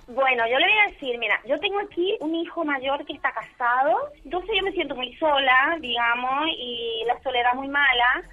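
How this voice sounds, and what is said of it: Paraguayan Spanish accent. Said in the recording (Spanish): “tu acento no es de Málaga ... yo soy de Paraguay ... ¡Uy, qué acento!”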